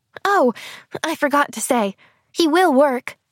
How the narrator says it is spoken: she supplemented eagerly

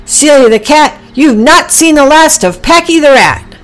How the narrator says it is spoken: Packy yelled back

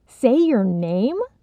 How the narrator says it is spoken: Sylvie screeched

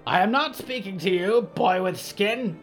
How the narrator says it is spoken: the omen croaked

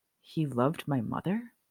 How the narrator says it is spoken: Harry whispered

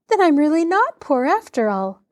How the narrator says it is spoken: Laura said happily

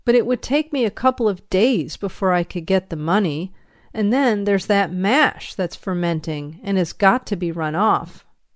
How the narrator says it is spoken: went on pleading

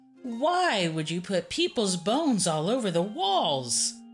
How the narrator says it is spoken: Aristea exclaimed

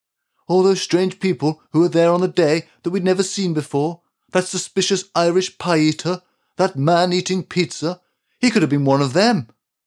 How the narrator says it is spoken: exclaimed the candlestick maker

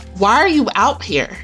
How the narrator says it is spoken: Kimberly furiously questioned

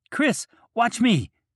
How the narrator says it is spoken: Cal shouts from the well

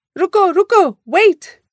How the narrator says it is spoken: a man shouted from behind

